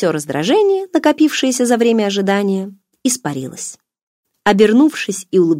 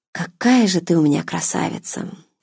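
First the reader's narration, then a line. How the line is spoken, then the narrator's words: Soft breathy voice. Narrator (Russian): тихо выдохнула сестра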